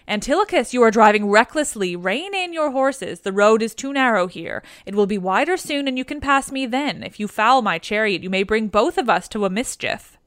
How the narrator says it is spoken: was afraid and shouted out

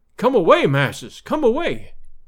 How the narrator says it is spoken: cried, his eyes starting from his head

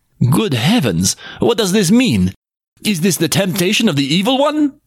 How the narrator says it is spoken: cried Occam

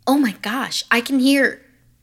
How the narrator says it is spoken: suddenly Anya heard Maisie exclaim

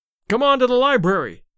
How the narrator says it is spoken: shouted Larry

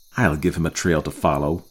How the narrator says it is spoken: muttered Rainsford

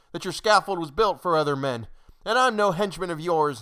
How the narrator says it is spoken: cried

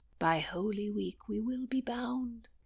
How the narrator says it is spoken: Charles murmured

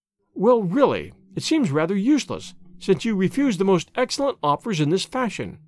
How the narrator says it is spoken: said she sharply

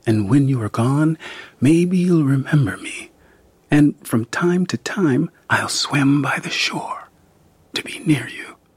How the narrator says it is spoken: he whispered

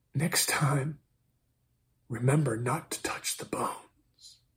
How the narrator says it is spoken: She whispered

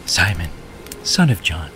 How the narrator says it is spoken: he said gently

